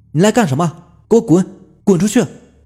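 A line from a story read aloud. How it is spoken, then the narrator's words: Shouting. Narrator (Chinese): 我又对着那个鬼影喊道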